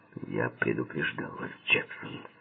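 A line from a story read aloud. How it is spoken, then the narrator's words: Through gritted teeth. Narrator (Russian): процедил сквозь зубы Паркер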